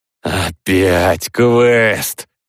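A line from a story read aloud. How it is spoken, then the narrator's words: Drawling. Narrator (Russian): протянул Олежка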